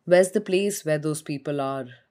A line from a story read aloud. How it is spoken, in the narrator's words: Gloria sighed